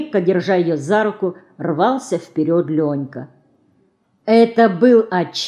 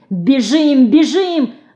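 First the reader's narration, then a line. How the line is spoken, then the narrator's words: Breathless shouting. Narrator (Russian): Задыхаясь, кричал Ленька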